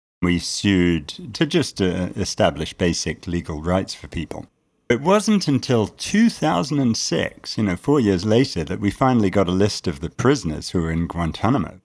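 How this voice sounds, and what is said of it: British accent. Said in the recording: “my patent British accent”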